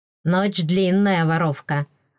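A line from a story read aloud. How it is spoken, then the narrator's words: Mocking snort. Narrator (Russian): хмыкнул эфиол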